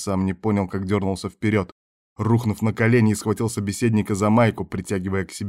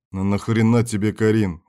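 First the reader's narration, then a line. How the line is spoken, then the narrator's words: Very irritated question. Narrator (Russian): уже совсем раздраженно спросил Берг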